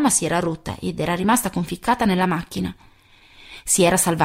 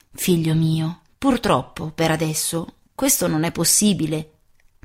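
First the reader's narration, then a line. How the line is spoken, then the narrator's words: Plain. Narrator (Italian): mi disse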